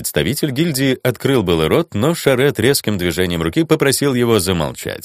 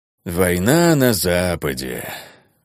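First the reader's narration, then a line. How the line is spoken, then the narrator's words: Sad sigh. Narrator (Russian): Шарет печально вздохнул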